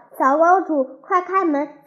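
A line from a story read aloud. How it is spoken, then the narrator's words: Shouting from outside. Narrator (Chinese): 谁在门外喊叫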